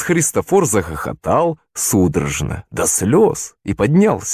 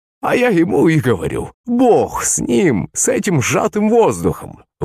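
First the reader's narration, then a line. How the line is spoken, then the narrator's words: Speech through laughter. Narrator (Russian): выговорил он сквозь смех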